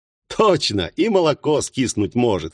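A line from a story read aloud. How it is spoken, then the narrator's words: Laughing. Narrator (Russian): снова рассмеялся одессит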